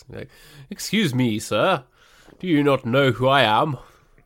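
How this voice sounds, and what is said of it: Exaggerated posh voice. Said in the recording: “put on my poshest possible voice.”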